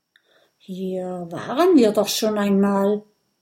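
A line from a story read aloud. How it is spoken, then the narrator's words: Muttering. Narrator (German): murmelt Kokosnuss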